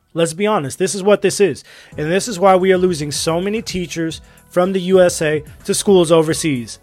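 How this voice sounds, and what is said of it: Raised, frustrated voice. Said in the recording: “my voice is getting raised, because this is so frustrating for me”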